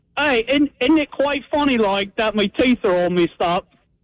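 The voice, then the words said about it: Put-on British accent. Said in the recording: “do a British impression”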